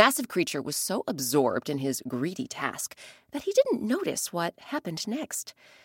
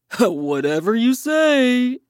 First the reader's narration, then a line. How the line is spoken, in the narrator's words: Elephant sneered